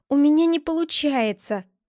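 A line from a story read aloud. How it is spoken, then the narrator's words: Exclamation. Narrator (Russian): воскликнул он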